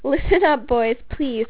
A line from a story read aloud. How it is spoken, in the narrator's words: called Lise, trying to gain control of her laughter